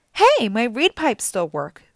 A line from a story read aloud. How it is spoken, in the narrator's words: Grover cried